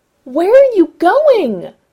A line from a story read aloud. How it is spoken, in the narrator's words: Ray yelled, his voice bouncing and echoing in the tunnel